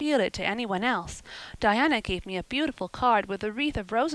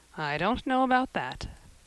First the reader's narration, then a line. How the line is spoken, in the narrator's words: said with a brief sigh